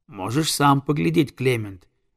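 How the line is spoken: Plain. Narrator (Russian): ответил рыбак

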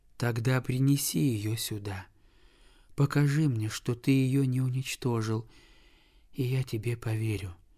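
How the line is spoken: Weak exhausted whisper. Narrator (Russian): прошептал больной, такой слабый и истомленный

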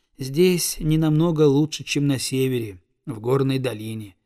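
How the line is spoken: Sigh. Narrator (Russian): вздохнул он

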